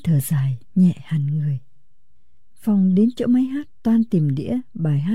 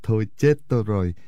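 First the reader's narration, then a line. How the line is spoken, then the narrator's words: Sudden laugh. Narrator (Vietnamese): Bỗng chàng bật cười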